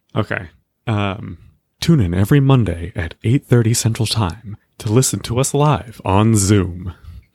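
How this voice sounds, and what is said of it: Smooth easy-listening radio announcer voice. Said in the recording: “smooth radio voice ... in the smoothest ahead, radio voice you can ... easy listening jazz radio voice ... NPR ... Smooth jazz”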